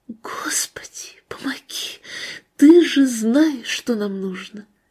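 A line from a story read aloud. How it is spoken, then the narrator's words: Whispered prayer. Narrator (Russian): шептала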